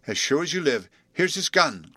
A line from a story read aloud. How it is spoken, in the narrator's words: cried Bluff